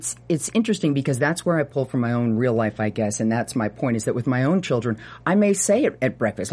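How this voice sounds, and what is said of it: Usual voice. Nothing is said of it.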